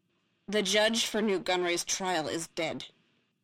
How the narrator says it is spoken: Typho said grimly

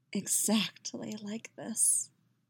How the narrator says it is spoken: Yennefer says softly

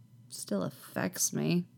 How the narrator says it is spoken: Anakin says faintly against his knees

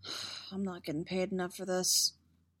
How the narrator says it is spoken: Ani said under his breath

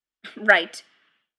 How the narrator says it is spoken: Mimes grunted

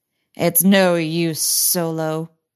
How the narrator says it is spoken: sneered the evil droidicot general

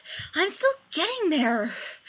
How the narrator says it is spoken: he panted

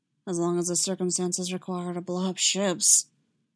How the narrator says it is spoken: said under her breath

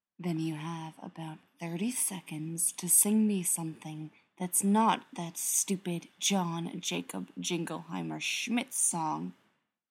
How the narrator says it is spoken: John whispered

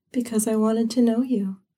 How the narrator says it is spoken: she murmured back

